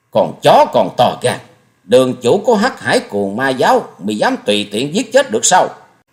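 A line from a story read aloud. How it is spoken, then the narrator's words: Angry snort, speaking. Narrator (Vietnamese): Hồng Trần Cuồng Sanh hừ lên một tiếng giận dữ nói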